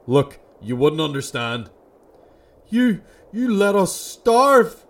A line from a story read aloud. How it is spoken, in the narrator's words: Martin screamed